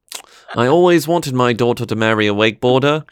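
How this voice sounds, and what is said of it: Put-on Australian accent. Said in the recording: “Here comes the Australian accent again.”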